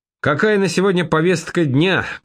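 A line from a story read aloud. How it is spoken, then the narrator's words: Shouted. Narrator (Russian): крикнул я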